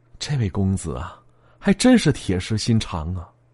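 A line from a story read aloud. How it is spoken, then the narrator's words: Soft, embarrassed murmur. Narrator (Chinese): 那姑娘涨红了小脸一脸羞愧的轻声的说了一句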